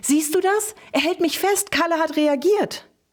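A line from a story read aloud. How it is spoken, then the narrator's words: Called out. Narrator (German): rief sie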